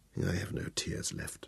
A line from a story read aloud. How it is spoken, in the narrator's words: answered me quietly